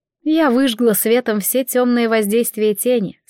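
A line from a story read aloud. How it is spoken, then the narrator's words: Plain. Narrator (Russian): сказала богиня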